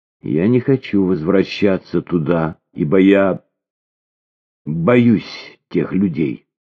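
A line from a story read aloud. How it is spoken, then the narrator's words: Flat, colorless voice. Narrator (Russian): Бесцветным голосом она проговорила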